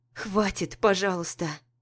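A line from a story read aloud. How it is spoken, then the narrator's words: Interrupting wearily. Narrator (Russian): перебиваю устало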